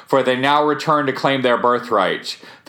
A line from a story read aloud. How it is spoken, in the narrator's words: he shouted